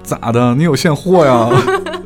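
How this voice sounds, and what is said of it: Put-on Northeastern Chinese accent. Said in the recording (Chinese): “这得用东北话还原一下”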